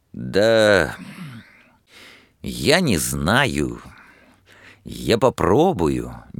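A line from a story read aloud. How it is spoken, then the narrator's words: Hesitant. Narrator (Russian): неуверенно ответил Лихонин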